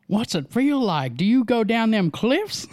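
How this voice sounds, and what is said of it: Put-on southern Texas accent. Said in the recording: “You have a pretty good southern accent. ... Why do you always go to Texas accent when you go to stupid?”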